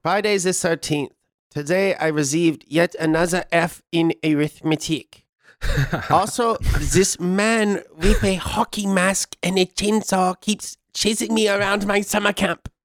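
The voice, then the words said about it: Put-on German accent. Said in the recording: “you want to give this a good German accent here?”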